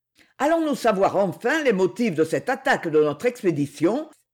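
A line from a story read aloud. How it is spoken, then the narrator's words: Exclaimed. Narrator (French): s'écria Jacques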